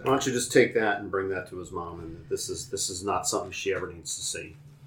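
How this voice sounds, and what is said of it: Inconsistent put-on character accent. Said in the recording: “my accent's just going all over the place.”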